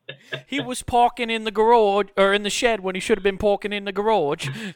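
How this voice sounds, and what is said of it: Poor put-on Australian accent. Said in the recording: “I'm not doing a good fucking Australian accent... Damn it, that's still bad.”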